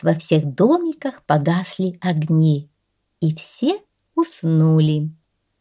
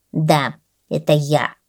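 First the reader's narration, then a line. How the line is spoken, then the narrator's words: Grumbling. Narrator (Russian): проворчала гусеница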